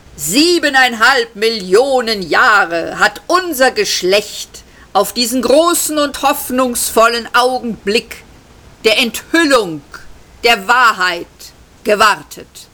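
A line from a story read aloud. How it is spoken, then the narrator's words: Calling out. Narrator (German): rief der Oberjubler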